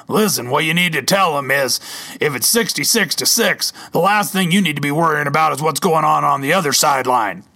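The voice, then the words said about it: Imitates another person's voice. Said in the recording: “I wish my Coach Verton impression was a little bit better”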